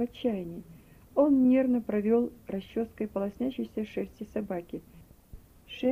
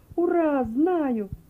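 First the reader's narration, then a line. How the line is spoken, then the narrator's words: Joyful shout. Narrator (Russian): радостно закричал он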